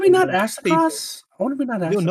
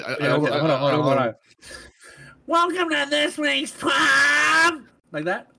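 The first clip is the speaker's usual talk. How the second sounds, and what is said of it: Nasal imitation of another person's voice. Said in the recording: “you need to be a little more nasally, a little more... ... I got my nose closed and everything”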